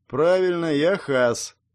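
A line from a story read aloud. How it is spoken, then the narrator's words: Flat colorless voice. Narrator (Russian): изменившимся бесцветным голосом сказал он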